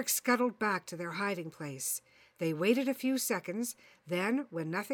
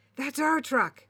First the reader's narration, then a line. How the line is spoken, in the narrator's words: Derek exclaimed with relief